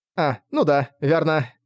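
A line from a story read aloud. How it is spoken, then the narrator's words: Nervous chuckle. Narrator (Russian): нервно хохотнула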